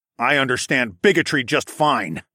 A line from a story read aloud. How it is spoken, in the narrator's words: I snarled